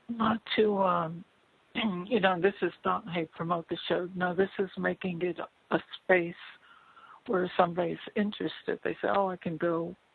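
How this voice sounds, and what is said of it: Strained voice, losing voice. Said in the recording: “I'm losing my voice here today”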